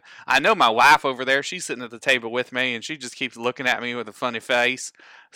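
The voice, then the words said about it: Put-on Southern accent. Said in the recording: “she also wants me to talk in this southern accent forever”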